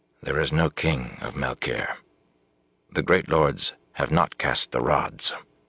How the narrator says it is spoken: said quietly, but in a tight voice

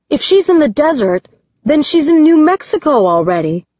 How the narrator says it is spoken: Eight shouts

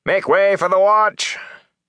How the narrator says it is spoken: shouting

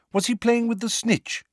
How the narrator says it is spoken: said Lupin eagerly

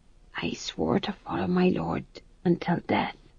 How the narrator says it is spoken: said the fool hoarsely

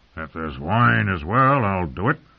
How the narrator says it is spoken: he growled at them

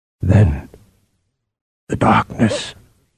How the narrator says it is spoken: Harim said hoarsely

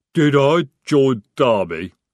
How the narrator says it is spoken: he rumbled

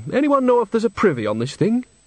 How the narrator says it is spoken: She added brightly

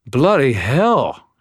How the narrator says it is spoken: gasped

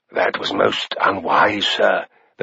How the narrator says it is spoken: the fat Septon whispered

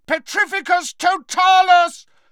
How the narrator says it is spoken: Harry bellowed again

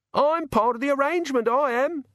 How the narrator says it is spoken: yelled

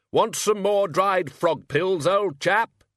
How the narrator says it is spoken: He shouted

